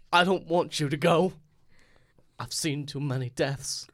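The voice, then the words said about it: Imitates another person's voice. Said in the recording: “your flawless Michael Caine impression?”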